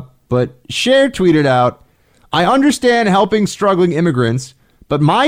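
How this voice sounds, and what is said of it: Usual voice. Nothing is said of it.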